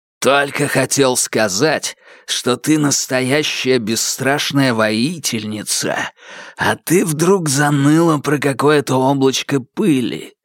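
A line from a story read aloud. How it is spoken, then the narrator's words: Hissed. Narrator (Russian): прошипел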